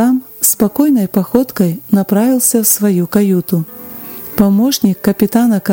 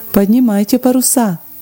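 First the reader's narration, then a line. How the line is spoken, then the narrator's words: Calm advice. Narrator (Russian): спокойно посоветовав стоящим вокруг морякам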